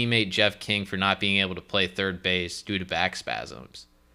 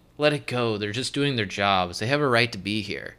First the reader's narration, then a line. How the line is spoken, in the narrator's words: People around Barry pleaded